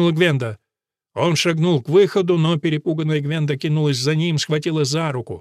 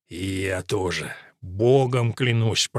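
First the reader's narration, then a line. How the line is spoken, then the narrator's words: Hissed. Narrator (Russian): прошипел Вулфрик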